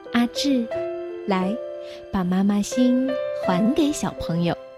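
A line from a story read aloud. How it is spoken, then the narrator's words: Gentle. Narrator (Chinese): 老师都要更温柔地说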